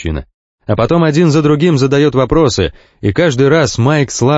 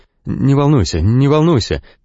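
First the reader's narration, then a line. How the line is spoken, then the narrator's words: Trembling voice. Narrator (Russian): дрогнувшим голосом говорит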